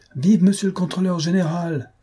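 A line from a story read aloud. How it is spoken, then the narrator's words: Crowd shouting. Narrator (French): s'écria la foule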